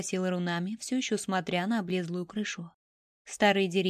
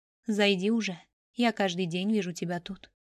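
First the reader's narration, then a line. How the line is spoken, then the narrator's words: Said with a sigh. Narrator (Russian): вздохнув, сказал Мамору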